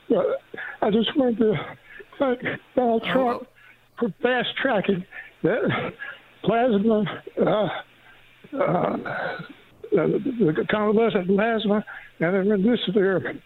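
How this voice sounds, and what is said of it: Weak, frail voice. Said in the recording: “My voice is kind of weak because I'm in the hospital with COVID.”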